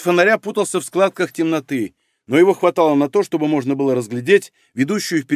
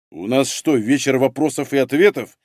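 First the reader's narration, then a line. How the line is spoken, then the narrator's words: Angry rebuke. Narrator (Russian): зло одернул его Егор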